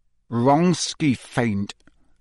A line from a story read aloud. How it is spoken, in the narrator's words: said Harry through gritted teeth